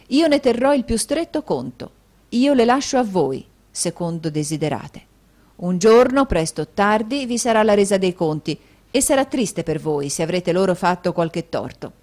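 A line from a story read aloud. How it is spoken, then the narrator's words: Thundering voice. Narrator (Italian): egli disse con voce tonante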